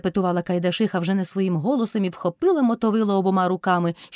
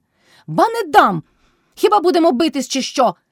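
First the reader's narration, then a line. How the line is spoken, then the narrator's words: Shouted. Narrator (Ukrainian): крикнула Мотря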